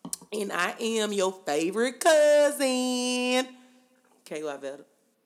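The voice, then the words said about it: Country Southern Alabama accent. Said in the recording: “You sound so country right now. ... You sound like from Alabama.”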